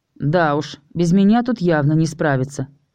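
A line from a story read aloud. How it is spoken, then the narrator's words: Snort. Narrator (Russian): хмыкнул Даркин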